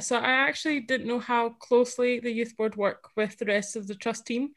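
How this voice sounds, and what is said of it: Scottish accent. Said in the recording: “that Scottish representation is coming through in that accent.”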